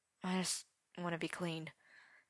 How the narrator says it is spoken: Arthur said weakly

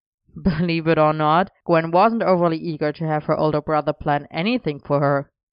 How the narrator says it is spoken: Elian said wryly

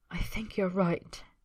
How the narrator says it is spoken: he whispers, eyes dark and breathing shallow

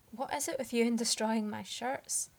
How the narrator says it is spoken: Arthur said shakily, more than a little breathless

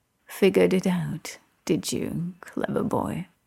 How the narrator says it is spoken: Arthur practically purrs into the shell of one of Merlin's ridiculous ears

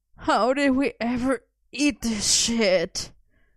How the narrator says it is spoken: Merlin groaned

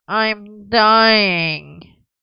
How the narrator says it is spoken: Merlin moaned, for perhaps the 100th time

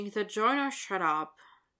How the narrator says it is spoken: Dylan mumbles

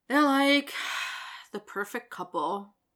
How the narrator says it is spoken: Mitch sighs

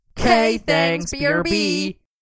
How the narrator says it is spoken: They would shout together

